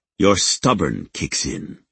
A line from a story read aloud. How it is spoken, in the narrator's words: he growled